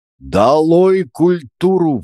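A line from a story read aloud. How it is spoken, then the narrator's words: Yelled. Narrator (Russian): вопил Изя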